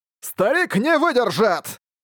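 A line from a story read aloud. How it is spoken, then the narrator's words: Roar, man. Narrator (Russian): взревел мужчина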